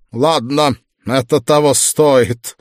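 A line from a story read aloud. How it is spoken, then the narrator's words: Sighing. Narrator (Russian): вздохнул Викт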